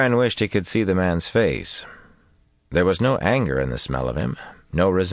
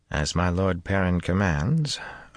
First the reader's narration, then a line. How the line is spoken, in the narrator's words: Aram muttered